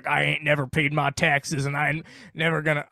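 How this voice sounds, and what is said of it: Put-on southern accent. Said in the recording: “I went to a southern accent”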